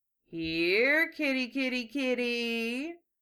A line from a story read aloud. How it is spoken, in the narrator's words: one of the men murmured mockingly